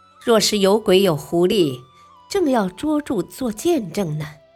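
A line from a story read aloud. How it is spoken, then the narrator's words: Smiling official. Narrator (Chinese): 阴天官笑笑说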